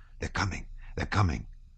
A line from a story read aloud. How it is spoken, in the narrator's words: ran an excited whisper